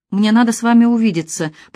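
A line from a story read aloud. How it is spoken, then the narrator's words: Trembling voice. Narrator (Russian): повторила дрожащим голосом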